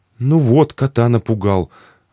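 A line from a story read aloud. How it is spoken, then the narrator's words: Offended. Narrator (Russian): обиженно сказала Мария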